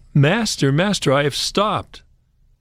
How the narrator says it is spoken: Peter called out

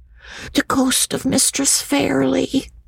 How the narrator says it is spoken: answered Jacob in a whisper

